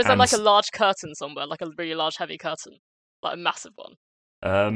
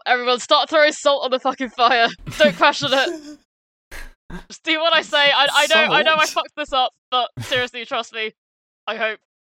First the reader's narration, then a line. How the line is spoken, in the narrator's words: And I'm just gonna yell